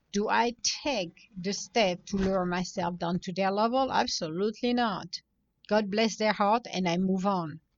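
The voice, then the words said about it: Speaks with a non-native accent. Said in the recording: “I have an accent ... because I have an accent”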